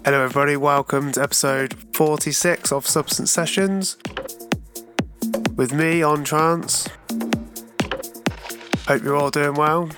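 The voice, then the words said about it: Sick voice with sore throat. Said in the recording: “I sound a little bit under the weather ... a bit of a hay fever and a bit of sore throat”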